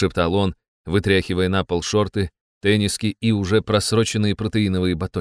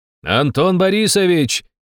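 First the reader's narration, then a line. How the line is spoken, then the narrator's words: Loudspeaker shout. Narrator (Russian): закричал динамик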